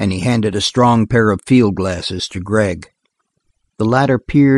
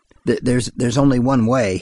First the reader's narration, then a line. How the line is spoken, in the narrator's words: he stammered at length